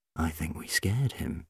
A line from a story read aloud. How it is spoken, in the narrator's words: said quietly